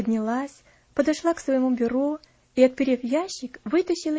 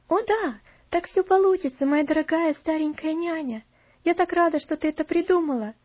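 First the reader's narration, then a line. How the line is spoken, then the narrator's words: Joyful. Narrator (Russian): радостно проговорила Элси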